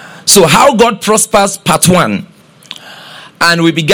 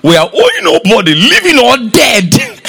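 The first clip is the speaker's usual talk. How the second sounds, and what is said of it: Imitates another person's voice. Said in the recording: “Let me talk like my mentor”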